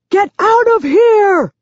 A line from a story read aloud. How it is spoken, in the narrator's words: yells